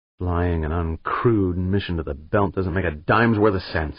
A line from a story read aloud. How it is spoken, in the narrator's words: he muttered